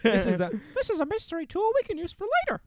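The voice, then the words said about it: Mickey Mouse cartoon voice impression. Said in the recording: “That's my impression of Mickle Mouse.”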